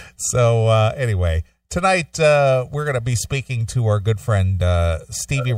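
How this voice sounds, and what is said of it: Usual voice. Nothing is said of it.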